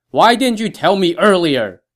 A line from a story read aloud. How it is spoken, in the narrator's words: Zhang Fei replied, also very loudly